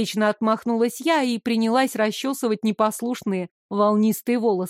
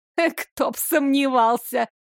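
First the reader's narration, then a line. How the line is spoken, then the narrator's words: Woman laughing. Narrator (Russian): рассмеялась помощница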